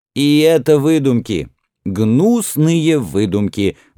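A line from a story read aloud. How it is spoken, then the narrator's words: Exclaiming. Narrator (Russian): воскликнул Тутмос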